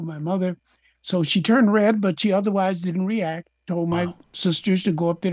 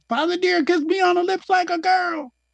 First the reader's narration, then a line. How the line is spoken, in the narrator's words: I blurted out